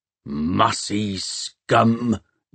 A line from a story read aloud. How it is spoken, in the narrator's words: growled Peavey